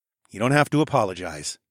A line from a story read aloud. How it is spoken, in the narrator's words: I said